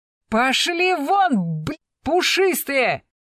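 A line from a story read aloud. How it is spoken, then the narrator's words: Furious yell. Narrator (Russian): Вне себя заорал Восьмибратов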